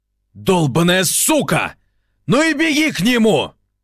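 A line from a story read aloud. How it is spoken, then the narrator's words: Shouted after someone. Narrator (Russian): крикнул он ей вслед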